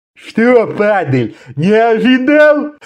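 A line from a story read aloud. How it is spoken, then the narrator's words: One-eyed man's guffaw. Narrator (Russian): Захохотал одноглазый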